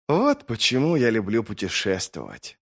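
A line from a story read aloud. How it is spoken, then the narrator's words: Sighing. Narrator (Russian): вздохнул длинноногий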